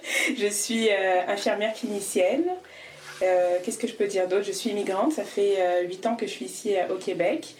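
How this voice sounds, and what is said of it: French accent from France. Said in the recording (French): “J'ai un bel accent français parce que je suis née à Paris”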